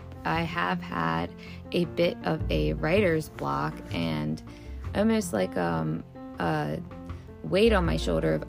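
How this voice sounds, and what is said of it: Strained, hoarse voice. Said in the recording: “sorry about my voice. It seems I might be losing it a little bit.”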